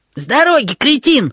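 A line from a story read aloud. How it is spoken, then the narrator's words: Yelling. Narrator (Russian): завопил Эрни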